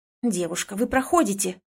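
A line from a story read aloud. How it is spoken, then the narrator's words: Irritated woman grumbling. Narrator (Russian): раздраженно ворчит женщина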